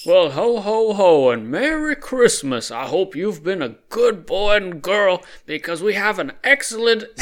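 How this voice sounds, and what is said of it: Jolly Santa Claus voice. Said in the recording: “You don't have to do the voice anymore ... that voice ... jolly fellow”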